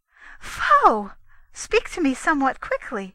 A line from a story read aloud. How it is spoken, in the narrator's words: cried the Lady Sriva